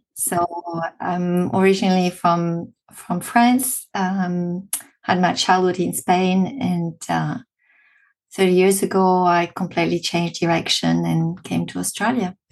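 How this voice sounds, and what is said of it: French accent. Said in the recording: “as you can hear, I've got a French accent.”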